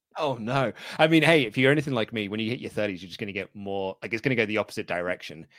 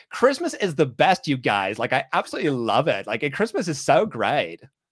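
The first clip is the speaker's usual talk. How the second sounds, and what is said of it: Put-on Californian accent. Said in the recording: “that your impersonation of my voice? ... It's not specifically you, but like California. ... Californian Luke”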